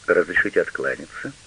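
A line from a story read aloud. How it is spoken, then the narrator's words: Dry question. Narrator (Russian): сухо спросил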